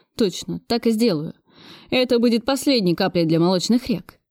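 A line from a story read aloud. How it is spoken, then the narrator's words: Dreamy with giggle. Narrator (Russian): мечтательно сказал Зеленский и хихикнул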